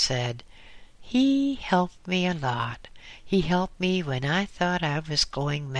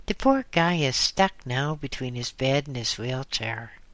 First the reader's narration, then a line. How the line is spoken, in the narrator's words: she said sadly